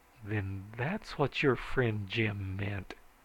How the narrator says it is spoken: I said slowly

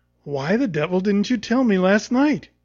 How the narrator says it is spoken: he said

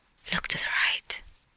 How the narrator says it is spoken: Aglaya said to her obstinately silent cavalier in a quick half-whisper

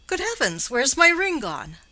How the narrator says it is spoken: exclaimed with a violent impulse of surprise

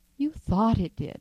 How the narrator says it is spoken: said the old lady, soothingly

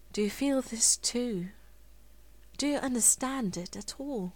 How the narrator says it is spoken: he wanted to murmur

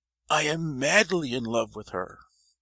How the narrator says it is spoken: cried the old man, all animated of a sudden

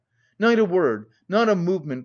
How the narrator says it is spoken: cried Raskolnikov

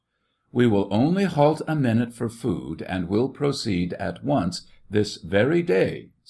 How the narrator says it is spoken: said the officer

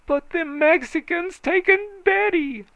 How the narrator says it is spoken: he shrieked, tearing his scanty locks

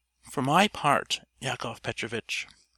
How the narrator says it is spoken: our hero answered warmly

